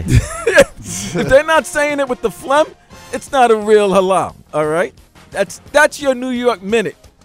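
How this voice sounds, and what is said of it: Brooklyn accent. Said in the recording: “my Brooklyn ... accent.”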